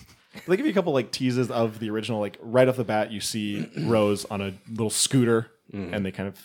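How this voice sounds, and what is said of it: Usual voice. Nothing is said of it.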